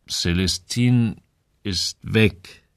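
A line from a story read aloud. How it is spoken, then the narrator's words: Slow speech. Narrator (German): sagte er langsam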